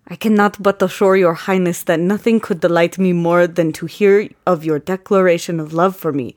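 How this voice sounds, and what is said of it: Put-on Russian accent. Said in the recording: “I'm going to try to do a Russian accent.”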